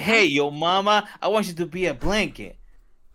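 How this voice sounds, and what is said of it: Brooklyn-style impersonated voice. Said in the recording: “impersonation of Joy from Brooklyn”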